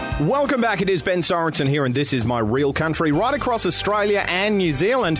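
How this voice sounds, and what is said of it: Australian accent. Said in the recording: “my accent ... this little Aussie”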